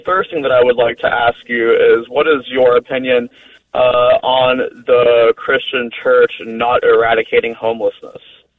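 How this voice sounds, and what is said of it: American accent. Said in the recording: “especially in the United States, where I'm assuming because of your accent, that's where you're calling from”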